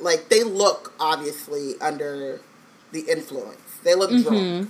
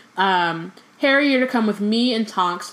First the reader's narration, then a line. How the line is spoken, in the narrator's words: shouted Mrs